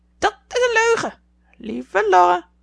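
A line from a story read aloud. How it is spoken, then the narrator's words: Parrot's screech. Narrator (Dutch): krijste de papegaai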